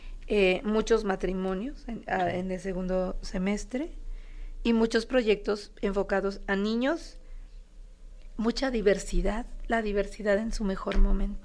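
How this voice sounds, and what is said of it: Hoarse voice. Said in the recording (Spanish): “estoy ronca, estoy malita de la garganta”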